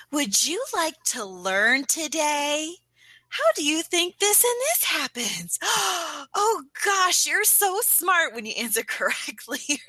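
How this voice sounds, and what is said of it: Baby voice. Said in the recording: “almost like this baby voice”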